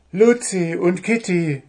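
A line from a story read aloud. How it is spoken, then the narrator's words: Calling out. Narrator (German): rief Wuschel, der als erster die beiden Wichtelfräuleins erkannte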